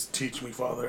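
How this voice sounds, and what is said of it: Serious, solemn voice. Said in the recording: “Serious voice,”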